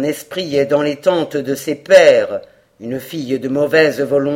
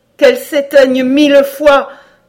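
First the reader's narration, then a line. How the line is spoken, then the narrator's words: Horrified exclamation. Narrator (French): s'écria Cora, saisie d'horreur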